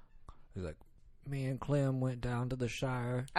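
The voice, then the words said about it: Odd attempt at Southern accent. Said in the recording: “your Southern accent, but then it was something really weird”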